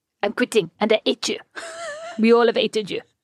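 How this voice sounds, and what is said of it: Put-on French accent. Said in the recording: “amazing French accents”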